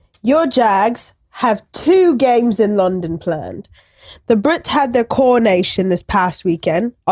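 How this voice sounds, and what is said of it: Put-on English accent. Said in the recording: “well done on the English accent.”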